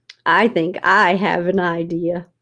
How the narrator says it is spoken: Shannon said

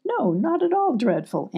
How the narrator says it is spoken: answered Molly, still giggling

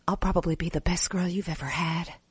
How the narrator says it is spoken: whispered

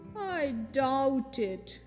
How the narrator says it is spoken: replied Eenie gloomily

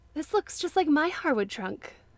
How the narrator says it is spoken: exclaimed

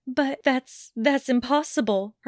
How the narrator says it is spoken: Hermione stuttered

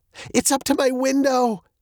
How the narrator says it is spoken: cried Veronica

